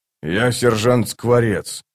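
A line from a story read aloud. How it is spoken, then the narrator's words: Quiet. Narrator (Russian): тихо сообщил бородач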